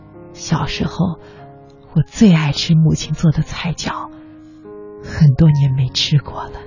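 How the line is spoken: Murmuring. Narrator (Chinese): 其中一个喃喃地说

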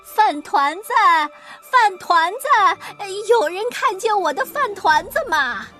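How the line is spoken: Old woman shouting while running. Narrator (Chinese): 老婆子跑得更快了，她一边跑一边喊

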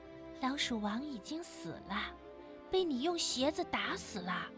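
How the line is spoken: Soft, gentle. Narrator (Chinese): 咬核桃的木头小人儿轻声地说

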